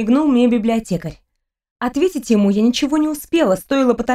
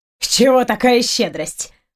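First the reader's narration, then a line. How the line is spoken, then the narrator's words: Snorting. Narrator (Russian): фыркнул Фенрир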